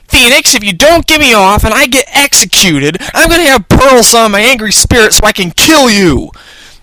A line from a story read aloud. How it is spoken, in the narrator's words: Maya cried